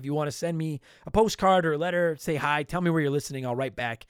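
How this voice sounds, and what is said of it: Strained, worn-out voice. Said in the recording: “My voice is fucked”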